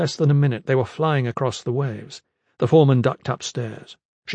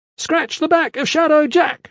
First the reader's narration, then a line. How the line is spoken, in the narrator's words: she shouted